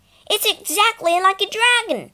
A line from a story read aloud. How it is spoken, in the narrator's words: Peter shouted above the noise